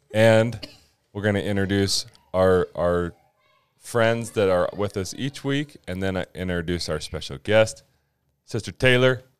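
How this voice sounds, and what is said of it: Low late-night DJ voice, slightly sick. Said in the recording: “with my late night DJ voice. I'm battling a cold a little bit.”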